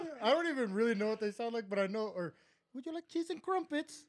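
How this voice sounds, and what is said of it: Usual voice. Nothing is said of it.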